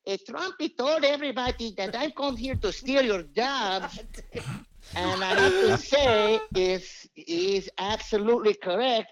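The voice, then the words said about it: Put-on Mexican accent. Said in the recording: “I was pretending to be a Mexican guy ... doing the full voice”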